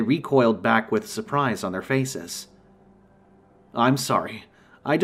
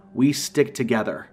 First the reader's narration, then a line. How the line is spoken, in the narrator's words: I said sternly